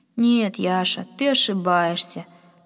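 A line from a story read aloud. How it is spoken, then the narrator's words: Weary. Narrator (Russian): сказал Пахом, устало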